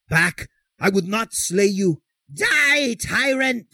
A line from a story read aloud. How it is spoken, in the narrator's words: screamed the mad minstrel